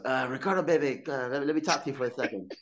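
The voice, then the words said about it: Imitates another person's voice. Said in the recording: “I can't do his voice, but I'm going to try.”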